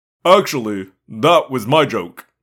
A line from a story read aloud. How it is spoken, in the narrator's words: Prince Jake said stiffly